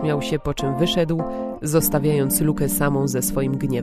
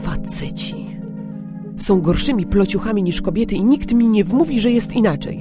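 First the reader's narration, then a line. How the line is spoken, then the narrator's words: Angry growl under breath. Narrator (Polish): warknęła pod nosem, mając ochotę czymś rzucić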